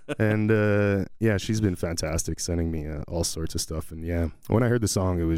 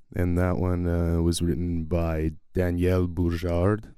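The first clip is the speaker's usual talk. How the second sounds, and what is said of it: Put-on French accent on a name. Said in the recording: “That's my French accent.”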